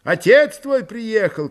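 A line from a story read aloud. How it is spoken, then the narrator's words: Shout. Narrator (Russian): крикнул тот ему вслед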